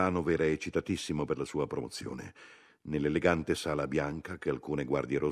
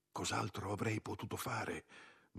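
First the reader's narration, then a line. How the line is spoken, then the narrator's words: Whispered. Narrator (Italian): mi sussurrò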